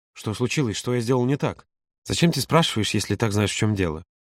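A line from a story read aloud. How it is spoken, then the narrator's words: Barely audible mutter. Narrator (Russian): Едва слышно пробормотал Юра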